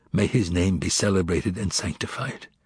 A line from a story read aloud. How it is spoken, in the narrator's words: whispered my father